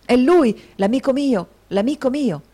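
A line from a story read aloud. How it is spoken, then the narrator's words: Exclaiming voice. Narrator (Italian): la voce del signor Crummles esclamare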